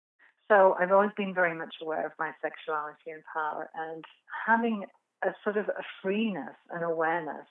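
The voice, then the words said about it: English accent. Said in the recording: “I come from England, as you can tell by my accent”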